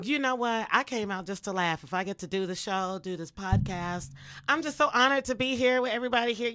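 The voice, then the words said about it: Hoarse voice. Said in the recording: “I'm laughing so hard. My voice is all hoarse and everything.”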